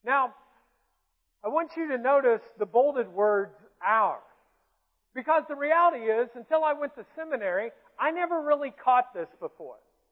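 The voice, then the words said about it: Southern drawl. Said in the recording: “That's my southern drawl that I can't get rid of.”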